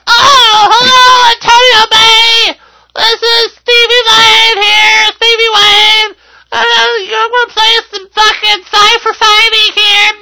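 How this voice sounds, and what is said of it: Airheaded radio DJ voice. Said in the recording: “Some fucking airhead cunt talking on the fucking radio ... her radio voice”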